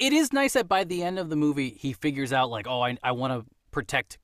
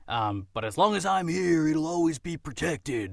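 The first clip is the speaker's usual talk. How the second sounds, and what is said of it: Imitates John Wayne's voice. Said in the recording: “my John Wayne impression.”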